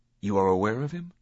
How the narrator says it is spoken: The Hashashin chuckled

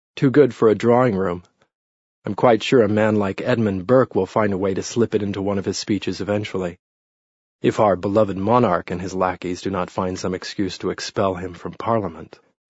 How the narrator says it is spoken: said dryly

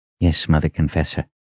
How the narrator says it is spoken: he said in a quiet tone

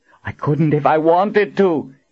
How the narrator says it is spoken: Colin called out to Kara

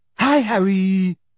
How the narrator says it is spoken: panted

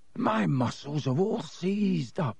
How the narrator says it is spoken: he groaned

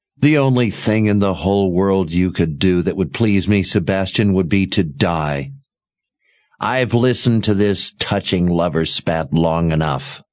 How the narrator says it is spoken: Sister Perdita growled

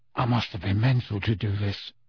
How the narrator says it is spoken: he said in a croaky whisper

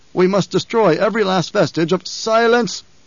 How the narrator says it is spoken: the Emperor roared

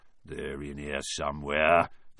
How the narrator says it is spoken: mutter

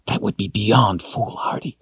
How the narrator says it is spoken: she whispered harshly

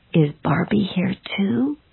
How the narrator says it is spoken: she asked me in a whisper

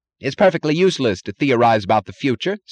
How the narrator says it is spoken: snapped Taggart

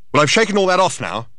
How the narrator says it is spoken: shouted Thor

